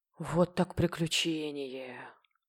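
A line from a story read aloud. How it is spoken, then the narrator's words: Weary, dejected sigh. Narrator (Russian): Раздосадованная и уставшая, Люси уныло вздохнула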